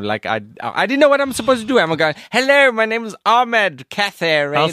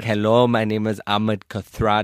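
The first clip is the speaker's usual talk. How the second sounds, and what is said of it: Strong put-on accent, rolled r. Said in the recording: “your accent can't be so strong... It's too much, mate. You don't go rrr, go rrr, go just round it off... It's still too much.”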